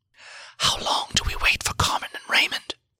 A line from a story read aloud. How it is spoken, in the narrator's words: I whispered to Siegfried